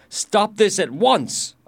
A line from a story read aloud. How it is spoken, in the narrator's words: I shouted